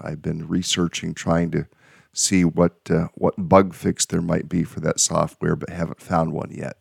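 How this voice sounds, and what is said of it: Slightly raspy voice. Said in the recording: “if it sounds raspy, that's me. I'm just a little raspy. I haven't had a drink yet this morning.”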